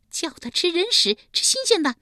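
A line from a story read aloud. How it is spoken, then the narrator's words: Shrill commanding. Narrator (Chinese): 尖声尖气地命令道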